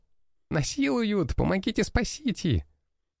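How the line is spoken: Laughing girl. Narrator (Russian): Хохотала девушка

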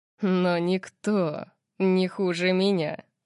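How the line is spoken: Wolfish growl. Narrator (Russian): сказал он волчьим рычанием, от которого у меня ёкнуло сердце

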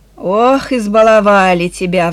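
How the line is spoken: Sighing again. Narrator (Russian): вздохнула Эленор снова

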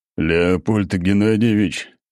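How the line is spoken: Snorting. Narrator (Russian): хмыкнул Ратмир

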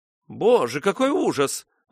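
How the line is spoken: Exclaimed. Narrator (Russian): воскликнула миссис Шовилл

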